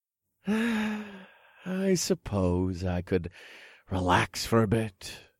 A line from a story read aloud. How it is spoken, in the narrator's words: I said as I let out another contented sigh